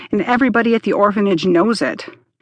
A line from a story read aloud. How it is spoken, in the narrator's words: Max snapped back